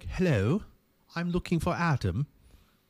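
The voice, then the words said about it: Imitated British accent. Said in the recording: “that person had a British accent.”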